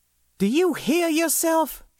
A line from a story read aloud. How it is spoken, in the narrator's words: She exclaimed, throwing up her blue hands in exasperation